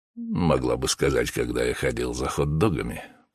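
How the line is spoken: Grumbling. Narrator (Russian): проворчал мужчина

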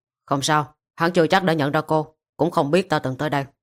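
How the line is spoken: Slightly less cold. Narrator (Vietnamese): Sắc mặt lạnh lùng giảm đi đôi chút, hắn nói

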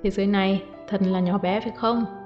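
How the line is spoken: Smiling. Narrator (Vietnamese): Uông Dụ Hàm mỉm cười nói

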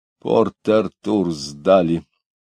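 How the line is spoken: Through clenched teeth. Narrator (Russian): сказал он сквозь зубы

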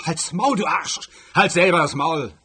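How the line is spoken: Bellowing back. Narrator (German): brüllte Gänsehals zurück

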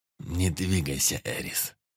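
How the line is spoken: Quiet. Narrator (Russian): Негромко сказал он

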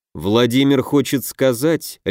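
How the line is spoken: Icy tone. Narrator (Russian): ледяным тоном произнес Дельвиг

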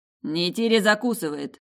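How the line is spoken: Restrained snort. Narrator (Russian): хмыкнул Тиму

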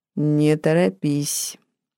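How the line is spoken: Devil's muffled voice. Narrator (Russian): голос черта звучал глухо

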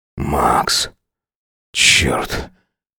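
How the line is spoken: Mutter. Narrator (Russian): пробормотал он

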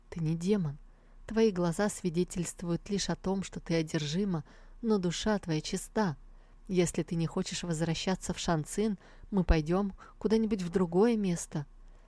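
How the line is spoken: Calm objection. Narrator (Russian): Минье спокойно возразил

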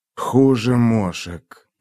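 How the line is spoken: Muttering. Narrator (Russian): пробормотал путник

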